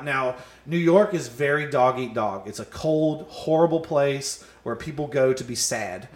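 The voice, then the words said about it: Southern American accent. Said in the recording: “I'm a southern comic. I have a southern accent.”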